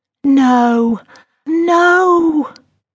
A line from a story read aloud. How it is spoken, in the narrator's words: Alice cried